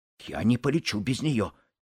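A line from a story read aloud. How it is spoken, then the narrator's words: Quiet. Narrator (Russian): тихо произнес Буртик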